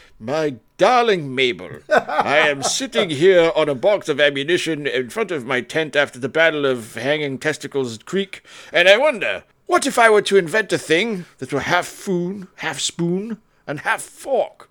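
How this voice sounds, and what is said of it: Bad put-on English-sounding accent. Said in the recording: “That is the most English, terrible, non-Southern accent I have in the history of things.”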